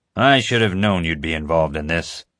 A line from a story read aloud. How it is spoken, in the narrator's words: he growled